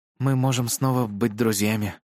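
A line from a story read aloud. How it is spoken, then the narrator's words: Slightly husky voice. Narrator (Russian): сказал Вик своим прежним хрипловатым голосом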